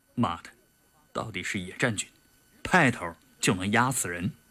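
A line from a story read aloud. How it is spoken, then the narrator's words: Nervous muttering. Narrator (Chinese): 杜长海心里也有些发毛，暗暗地嘀咕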